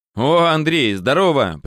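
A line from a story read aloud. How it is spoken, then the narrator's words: Overly cheerful greeting. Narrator (Russian): приветствовал он меня как-то чересчур радостно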